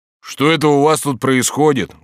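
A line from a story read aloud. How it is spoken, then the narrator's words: Loud. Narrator (Russian): громко сказал он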